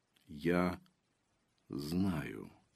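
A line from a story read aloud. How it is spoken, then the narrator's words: Quiet objection. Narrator (Russian): тихо возразил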